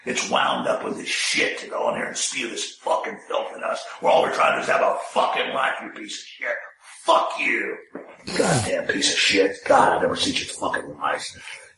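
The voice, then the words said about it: Angry ranting impression of another person. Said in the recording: “he was doing his Dianne Feinstein impression ... We got an impression ... I think it was Cuomo ... Cuomo from CNN ... I'm halfway thinking it was Bernie again ... did his Bernie turn into an Italian mafia don?”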